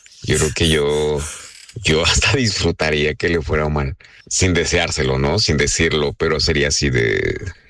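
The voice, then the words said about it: Deep polished radio-announcer voice. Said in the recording (Spanish): “voz de locutor ... Tienes voz más chida que nosotros”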